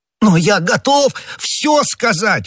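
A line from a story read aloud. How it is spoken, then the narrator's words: Exclaimed. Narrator (Russian): воскликнул Бонасье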